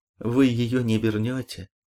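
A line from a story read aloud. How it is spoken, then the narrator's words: Plain. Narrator (Russian): сказал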